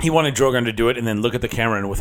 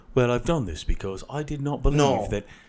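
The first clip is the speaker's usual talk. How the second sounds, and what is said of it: Put-on British accent. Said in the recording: “with a British accent”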